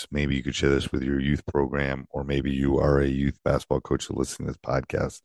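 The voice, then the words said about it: Hoarse, worn-out voice. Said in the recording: “my voice is still shot”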